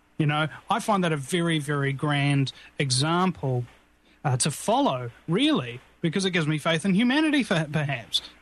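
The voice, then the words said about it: Cultured New Zealand accent. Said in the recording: “you have a very cultured accent. You have the the flavor of the British and the Australian, New Zealand, it sounds very cultured to the American ear ... I'm born and bred here in New Zealand”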